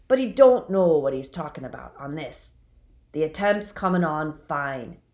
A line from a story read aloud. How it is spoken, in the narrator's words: said gruffly